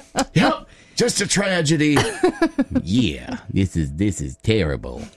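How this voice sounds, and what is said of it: Imitates another person's voice, poorly. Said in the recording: “That was a really bad Snoop Dogg impersonation. ... That was a really bad one”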